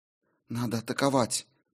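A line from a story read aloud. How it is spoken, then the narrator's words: Spoken quietly. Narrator (Russian): тихо проговорила Мьёль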